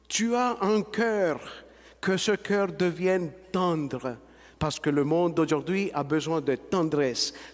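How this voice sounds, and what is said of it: Colombian accent in French. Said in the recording (French): “l'accent du petit Colombien”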